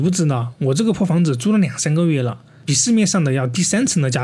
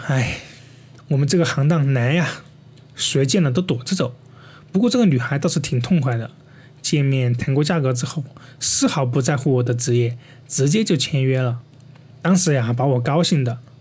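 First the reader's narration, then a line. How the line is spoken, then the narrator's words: Sighing older man. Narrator (Chinese): 大叔叹了口气说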